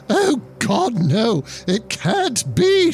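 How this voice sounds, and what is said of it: Old lady character voice. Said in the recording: “Your old lady voice, though, is awesome.”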